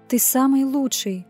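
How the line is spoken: Unrestrained breathy exhale. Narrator (Russian): не сдерживаясь, выдохнула я

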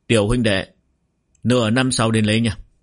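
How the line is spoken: Smiling. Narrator (Vietnamese): Sở Minh Luyện mỉm cười nói

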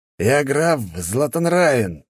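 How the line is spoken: Growl over phone. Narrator (Russian): прорычал идиот в телефоне

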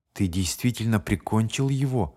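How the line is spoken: Quiet question. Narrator (Russian): спросил он тихо

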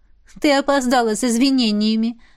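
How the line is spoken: Laughing. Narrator (Russian): засмеялась Эва

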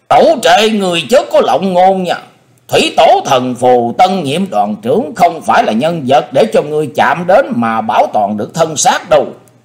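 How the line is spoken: Thunderous roar. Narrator (Vietnamese): Kình Ngạc tướng quân gầm lên như sấm động

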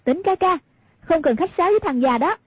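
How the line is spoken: Provoking call. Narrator (Vietnamese): Hoàng Dung muốn gây rối tâm lý của Cừu Thiên Nhận, bèn kêu lên

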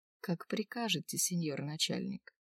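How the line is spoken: Languid female voice. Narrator (Russian): Неожиданно томным голосом отозвалась тем временем младшая Рязанова

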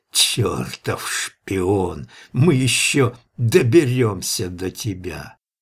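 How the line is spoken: Angry hoarse rasp. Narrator (Russian): Человек злобно прохрипел

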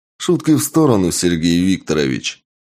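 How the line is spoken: Stern. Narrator (Russian): строго сказал

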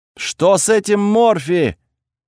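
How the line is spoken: Panicked shouting from crowd. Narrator (Russian): панически закричали из толпы

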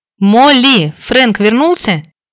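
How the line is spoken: Shout. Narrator (Russian): прокричала

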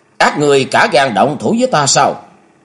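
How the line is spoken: Angry shouted question. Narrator (Vietnamese): Hứa Hồng Mai quét ánh mắt căm giận nhìn 8 tên hộ pháp đầu tọa rồi quát hỏi

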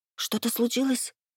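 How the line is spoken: Frightened woman's whisper. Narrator (Russian): испуганно прошептала я

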